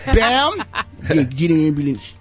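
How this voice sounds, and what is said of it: Imitates another person's voice. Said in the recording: “That's the best Bam impression ever.”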